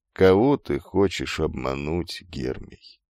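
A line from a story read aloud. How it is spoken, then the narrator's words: Quiet question. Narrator (Russian): тихо спросил Тересий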